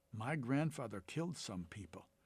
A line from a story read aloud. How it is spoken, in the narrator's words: Ricardo whispered